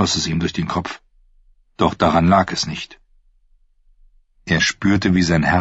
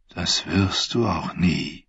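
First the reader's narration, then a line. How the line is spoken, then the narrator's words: Sad voice. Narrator (German): sagte eine Stimme traurig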